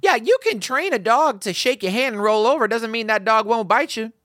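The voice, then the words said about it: Southern US accent. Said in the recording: “why did I sound so Southern? ... went to the Deep South, scooped up your old accent”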